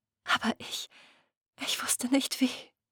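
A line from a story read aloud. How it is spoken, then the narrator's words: Whisper. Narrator (German): flüsterte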